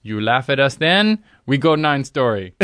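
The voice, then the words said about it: Made-up put-on accent. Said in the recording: “I'm making up the accent.”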